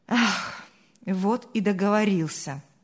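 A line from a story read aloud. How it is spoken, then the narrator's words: Sighing. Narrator (Russian): вздохнул Павел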